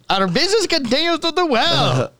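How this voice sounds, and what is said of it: Put-on Scandinavian accent. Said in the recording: “That's your Scandinavian fucking accent.”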